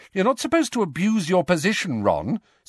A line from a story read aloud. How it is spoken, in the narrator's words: said Hermione sharply